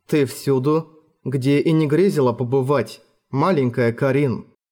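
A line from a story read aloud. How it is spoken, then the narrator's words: Woman speaking, soft laugh. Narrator (Russian): сказала женщина и тихонько засмеялась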